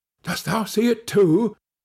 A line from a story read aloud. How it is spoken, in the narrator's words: said his companion in a startled tone